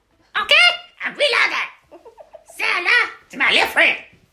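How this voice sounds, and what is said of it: Loud, bad Kevin Hart impression. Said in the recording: “That's the worst Kevin Hart impression I've ever done. ... Oh my God, that was so loud.”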